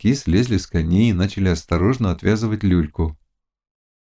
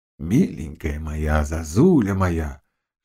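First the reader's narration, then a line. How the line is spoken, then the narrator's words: Soft whisper. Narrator (Russian): шептал он тихо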